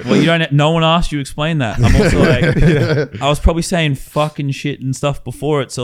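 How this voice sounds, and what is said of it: Australian accent. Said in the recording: “that Australian accent”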